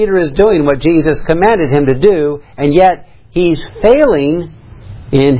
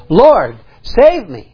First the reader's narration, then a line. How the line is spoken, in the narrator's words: he was afraid, and beginning to sink, he cried, saying